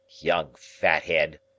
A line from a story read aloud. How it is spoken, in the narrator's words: he grumbled